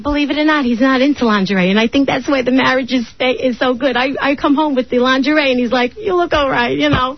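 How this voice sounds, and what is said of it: Brooklyn New York accent. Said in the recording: “You sound like you're from Staten Island, actually. You do have a bit of an accent... I'm a Brooklyn girl... there's a Brooklyn accent.”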